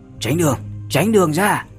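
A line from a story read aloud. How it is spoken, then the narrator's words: Loud shout. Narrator (Vietnamese): một tiếng hét lớn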